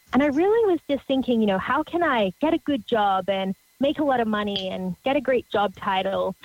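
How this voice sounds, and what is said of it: Australian accent. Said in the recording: “You might be able to tell from my crazy accent that I grew up down under in Australia.”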